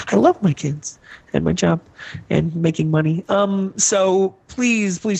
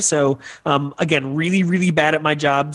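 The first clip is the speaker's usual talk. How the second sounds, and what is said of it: Sarcastic delivery. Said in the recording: “I'm being sarcastic.”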